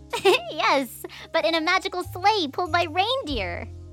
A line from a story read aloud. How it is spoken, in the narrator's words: Wren explained, giggling at Drac's comparison